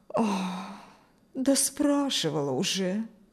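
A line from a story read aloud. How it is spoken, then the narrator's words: Mother-in-law's sigh. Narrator (Russian): вздохнула свекровь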